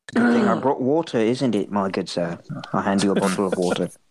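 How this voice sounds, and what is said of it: Put-on English accent. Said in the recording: “I'm just English. I make the very firm loose with my accent ... With my accent.”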